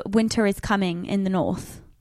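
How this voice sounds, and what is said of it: Attempted English accent. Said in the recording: “Do you want to try and do an English accent? ... So that was very good ... you could pull it off. You could just pretend you're English”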